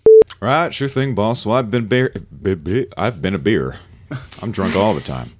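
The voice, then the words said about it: Impression of Jack. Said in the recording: “that impression? ... as good as the Jack impression is”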